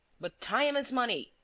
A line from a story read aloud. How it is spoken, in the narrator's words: cried